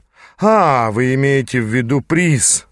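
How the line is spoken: Laughing. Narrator (Russian): рассмеялся он

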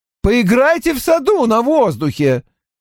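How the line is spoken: Shouting after them. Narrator (Russian): крикнул им вслед Грегори

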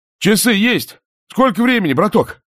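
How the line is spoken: Shout. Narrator (Russian): крикнул Романов

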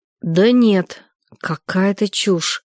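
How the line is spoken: Slow. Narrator (Russian): медленно сказал Саня

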